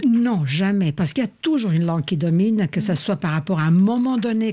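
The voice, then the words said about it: Non-native accent in French. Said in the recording (French): “Vous pouvez entendre comme j'ai un accent ... j'ai un accent que je ne peux plus corriger ... un accent qui pourrait être comparable à un accent régional”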